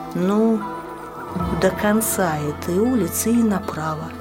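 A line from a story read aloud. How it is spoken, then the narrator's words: Girl speaking uncertainly. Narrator (Russian): сказала девушка неуверенно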